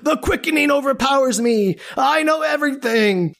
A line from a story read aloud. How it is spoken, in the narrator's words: he's like yelling